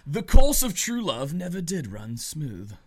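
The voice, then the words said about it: Put-on British accent, questionable quality. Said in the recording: “If I say it in that voice ... Was that even a good British accent? ... I don't think so. ... I thought it was pretty good.”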